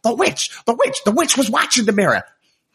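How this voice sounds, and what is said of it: Cartoon seagull character voice. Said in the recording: “actually do a really good impression of Scuttle the seagull ... Pretty good.”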